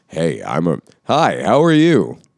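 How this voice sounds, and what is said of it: Put-on radio announcer voice. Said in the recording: “What do you think of my radio voice? ... It's radio voice ... this is like a little different than your actual speaking voice”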